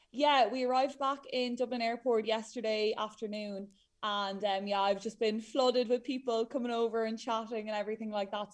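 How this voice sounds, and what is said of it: Hoarse, tired voice. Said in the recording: “I'm a bit hoarse and tired after the last few days shouting at everybody running”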